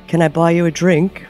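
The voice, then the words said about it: Put-on British accent. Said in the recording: “comes in with the British accent”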